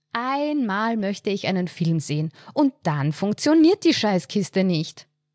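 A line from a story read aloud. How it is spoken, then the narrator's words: Dramatic exclamation. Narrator (German): rief sie dramatisch aus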